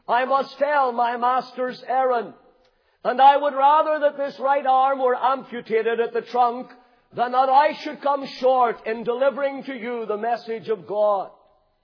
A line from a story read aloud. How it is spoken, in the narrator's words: the young preacher exclaimed